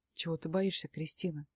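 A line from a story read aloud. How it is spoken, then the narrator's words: Velvety voice. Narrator (Russian): бархатным голосом спрашивает он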